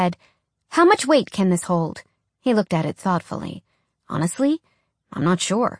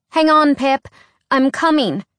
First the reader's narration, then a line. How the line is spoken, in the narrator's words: Alex called out